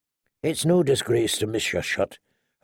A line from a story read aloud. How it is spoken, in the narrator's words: her uncle told her quietly